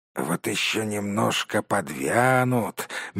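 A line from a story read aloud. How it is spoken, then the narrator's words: Dreamy drawl. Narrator (Russian): мечтательно протянул второй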